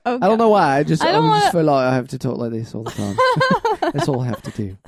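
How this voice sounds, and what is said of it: British accent, celebrity chef impression. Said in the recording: “if I say it in a British voice ... Sounds like you're doing your Gordon Ramsay impression.”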